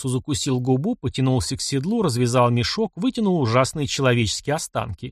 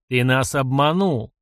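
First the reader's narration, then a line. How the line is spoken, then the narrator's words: Barked. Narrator (Russian): рявкнул Хунгур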